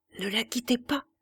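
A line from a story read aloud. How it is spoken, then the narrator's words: Murmuring. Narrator (French): murmura Madame de Berle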